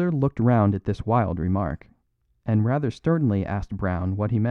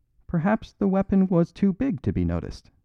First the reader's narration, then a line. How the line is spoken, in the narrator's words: said the priest, with an odd little giggle